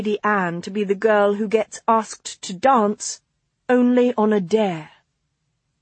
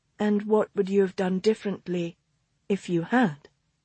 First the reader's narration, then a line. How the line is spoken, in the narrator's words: She asked quietly